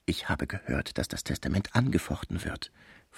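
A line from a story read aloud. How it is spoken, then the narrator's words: Whisper in ear. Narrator (German): flüsterte Topinard Vitelot ins Ohr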